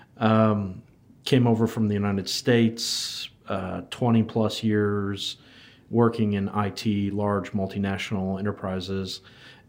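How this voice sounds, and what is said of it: Non-New Zealand, American accent. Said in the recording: “you can tell by my terrible accent that I'm not originally from New Zealand”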